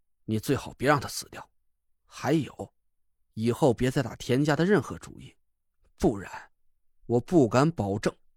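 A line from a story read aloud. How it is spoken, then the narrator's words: Cold curt remark. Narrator (Chinese): 我冷冷的丢下一句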